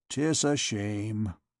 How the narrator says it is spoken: muttered the tormentor

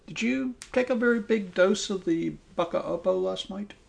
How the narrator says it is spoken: asked Augustine a little anxiously

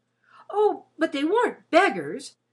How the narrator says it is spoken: said Fauntleroy eagerly

